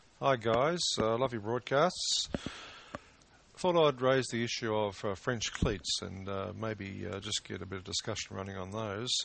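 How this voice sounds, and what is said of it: Australian accent. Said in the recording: “one of our Australian listeners ... He has an accent ... that sounds like a real Australian”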